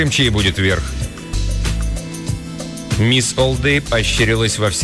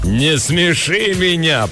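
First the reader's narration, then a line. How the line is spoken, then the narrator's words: Thundering, contemptuous. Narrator (Russian): прогремела она, буквально источая презрение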